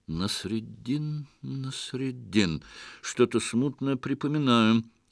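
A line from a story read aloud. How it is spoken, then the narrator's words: Thoughtful mutter. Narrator (Russian): задумчиво пробормотал лев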